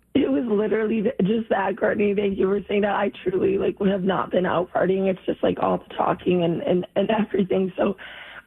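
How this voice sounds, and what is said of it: Hoarse, nearly lost voice. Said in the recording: “lost my voice ... your voice sounds that way”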